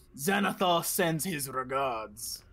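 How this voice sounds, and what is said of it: Deep orcish accent. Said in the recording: “in a deep orcish accent”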